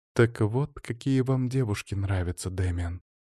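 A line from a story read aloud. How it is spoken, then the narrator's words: Quiet. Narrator (Russian): тихо проговорила Елена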